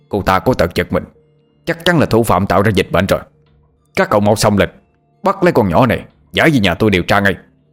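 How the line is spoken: Shouting. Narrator (Vietnamese): mồm thì hét lên

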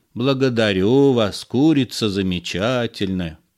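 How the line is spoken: Droning. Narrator (Russian): прогудел суматоха

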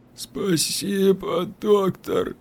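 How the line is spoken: Trembling drawl, near tears. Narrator (Russian): дрожащим голосом протянул калека, словно собирался расплакаться

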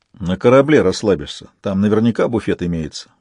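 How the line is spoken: Grumbled. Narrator (Russian): буркнул Донцов

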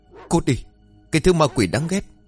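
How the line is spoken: Shouting. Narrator (Vietnamese): Cậu hét lên

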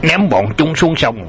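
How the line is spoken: Uncontrolled roar. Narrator (Vietnamese): Mạch Vân Phi kềm nén không nổi gầm lên

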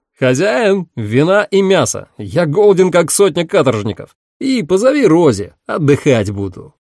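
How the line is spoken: Ringing young shout. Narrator (Russian): молодой человек, который звонким голосом крикнул

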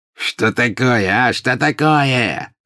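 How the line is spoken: Sudden angry shout. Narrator (Russian): закричал обозлившийся вдруг пожиратель смерти

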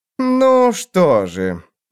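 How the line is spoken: Drawling king. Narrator (Russian): протянул король

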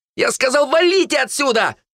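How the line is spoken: Young man shouting from afar. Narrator (Russian): выкрикнул оттуда парень

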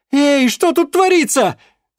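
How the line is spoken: Yelling. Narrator (Russian): завопила она

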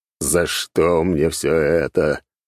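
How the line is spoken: Groaning. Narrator (Russian): простонал

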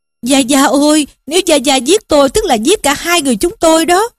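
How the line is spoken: Hurried, loud pleading. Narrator (Vietnamese): Lý Quỷ vội vàng năn nỉ mà kêu vang lên rằng

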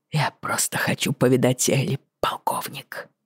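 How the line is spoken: Whispering, head down. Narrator (Russian): прошептал он, не поднимая головы

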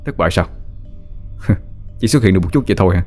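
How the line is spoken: Muttering. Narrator (Vietnamese): Tôi lẩm bẩm

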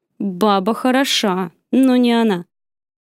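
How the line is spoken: Loud, hoarse with agitation. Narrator (Russian): Громко севшим от волнения голосом ответил он

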